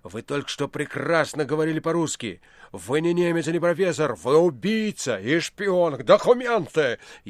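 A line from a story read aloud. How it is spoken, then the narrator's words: Furious shout. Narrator (Russian): яростно крикнул Иван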